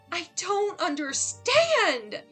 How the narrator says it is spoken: yelled, tears streaming down my face

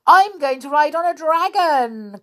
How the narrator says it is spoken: cried one

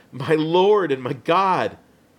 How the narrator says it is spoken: Thomas did and cried out

